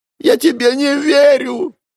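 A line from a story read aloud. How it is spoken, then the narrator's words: Young man nearly sobbing. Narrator (Russian): Парень едва ли не рыдал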